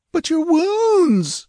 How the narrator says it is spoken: wailed

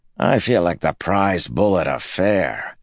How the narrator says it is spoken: Candler grumbled

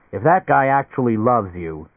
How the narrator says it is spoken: he said roughly

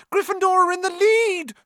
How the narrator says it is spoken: shrieked Hermione

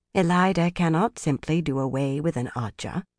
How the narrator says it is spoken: Morvryn murmured

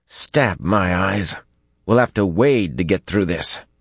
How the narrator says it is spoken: Besslin grumbled in disgust

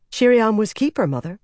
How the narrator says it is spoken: Lilaine said quickly

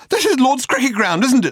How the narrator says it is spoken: snapped Arthur

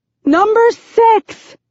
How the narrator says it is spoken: I shout

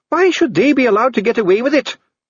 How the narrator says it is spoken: Dee snapped, his voice breaking with the strain

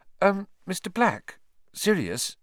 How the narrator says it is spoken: said Hermione timidly

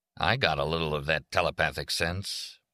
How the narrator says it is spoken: Leo said in a toneless voice

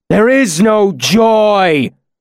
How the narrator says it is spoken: Lanre shouted in an awful voice

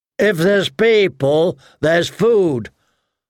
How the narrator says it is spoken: Hotpie said too loudly

